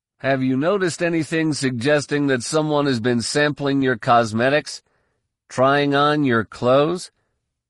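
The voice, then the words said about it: Mock investigator character voice. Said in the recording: “In his best Corsac investigator voice”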